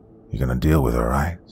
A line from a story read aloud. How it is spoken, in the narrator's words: He spoke under his breath